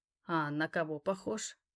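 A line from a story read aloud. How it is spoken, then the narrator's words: Insinuating question. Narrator (Russian): вкрадчиво спросил я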